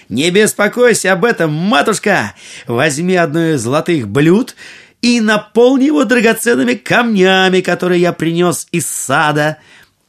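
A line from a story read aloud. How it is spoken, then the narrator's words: Cheerful shout. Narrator (Russian): весело крикнул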